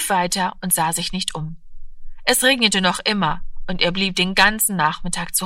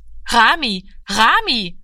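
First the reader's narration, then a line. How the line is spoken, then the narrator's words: Calling after someone. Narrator (German): rief sie ihm nach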